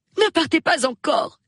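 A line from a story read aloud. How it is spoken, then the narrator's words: Pleading. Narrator (French): supplia Madame Bantry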